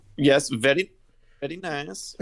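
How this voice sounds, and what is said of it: Put-on Borat-style accent. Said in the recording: “had to have his Borat accent with him.”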